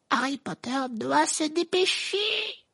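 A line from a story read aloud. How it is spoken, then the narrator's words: Squeaked. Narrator (French): couina Dobby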